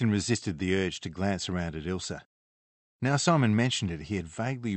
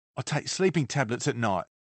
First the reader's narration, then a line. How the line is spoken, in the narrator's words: Simon snapped back